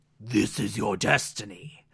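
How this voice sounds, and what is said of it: Poor imitation of a demon villain. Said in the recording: “terrible Trigon impression”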